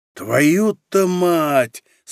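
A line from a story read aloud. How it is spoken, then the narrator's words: Admiring breathed exclamation. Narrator (Russian): с восхищением выдохнул Цинк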